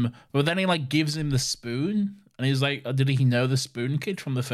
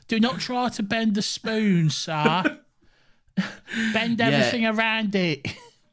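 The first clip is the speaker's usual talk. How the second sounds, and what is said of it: Imitates a weirdly British accent. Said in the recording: “with a weirdly British accent ... Oliver Twist”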